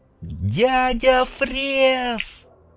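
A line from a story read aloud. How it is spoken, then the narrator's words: Joyful boy's shout. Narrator (Russian): крикнул мальчишка радостно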